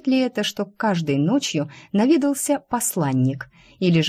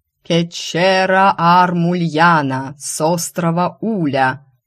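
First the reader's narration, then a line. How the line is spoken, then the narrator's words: Loud trained barker's howl. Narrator (Russian): Взвыл мужчина хорошо поставленным голосом уличного зазывалы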